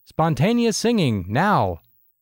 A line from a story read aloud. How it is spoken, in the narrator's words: Alan's shouted instruction